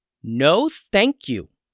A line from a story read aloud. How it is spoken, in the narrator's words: said Lily firmly to the bear